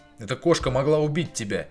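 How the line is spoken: Sharp, angry. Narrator (Russian): Резко бросил я, разозлившись скорее на свой испуг, чем на нее

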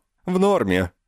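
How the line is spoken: Cheerful. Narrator (Russian): бодро ответила Ба

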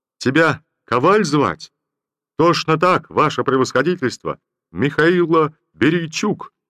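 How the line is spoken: Cheerful childlike shout. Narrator (Russian): весело, с довольной детской улыбкой крикнул солдат

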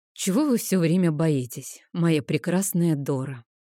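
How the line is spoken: Heavy exasperated sigh. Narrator (Russian): Тяжко вздохнул он, не выдержав

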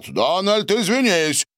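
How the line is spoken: Shouting. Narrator (Russian): выкрикнул Борис

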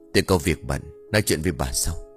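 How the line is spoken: Whisper. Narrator (Vietnamese): Ông thì thầm

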